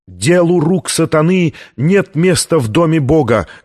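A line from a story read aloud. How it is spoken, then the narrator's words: Shouting. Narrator (Russian): кричал камерарий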